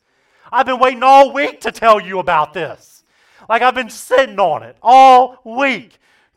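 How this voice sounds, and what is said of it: Loud, excited yelling. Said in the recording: “you're the one yelling all the time ... the reason that I'm yelling is because I'm genuinely pumped up about this”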